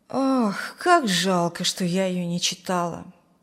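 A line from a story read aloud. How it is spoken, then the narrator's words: Sighing. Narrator (Russian): вздохнула Зина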